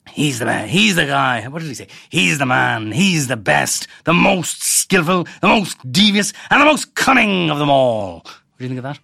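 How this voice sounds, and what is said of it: Imitates another person's voice. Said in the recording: “I should use my Haughey accent”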